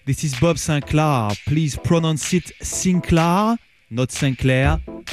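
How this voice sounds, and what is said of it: Strong French accent. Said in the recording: “French accent ... excuse me for my strong accent.”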